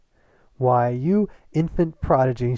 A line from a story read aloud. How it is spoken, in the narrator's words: she cried